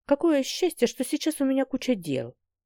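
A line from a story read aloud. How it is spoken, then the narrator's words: Muttering. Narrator (Russian): пробормотала Ариэла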